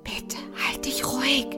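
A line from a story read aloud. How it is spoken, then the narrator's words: Whisper. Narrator (German): Momo flüsterte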